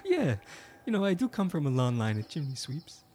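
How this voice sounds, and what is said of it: Put-on accent. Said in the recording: “that's why the accent”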